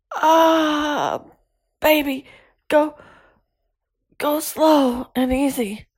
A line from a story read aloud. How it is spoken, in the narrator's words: I panted